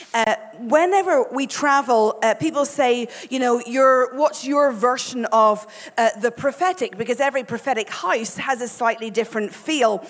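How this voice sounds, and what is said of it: Irish accent. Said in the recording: “you'll know this is an Irish accent”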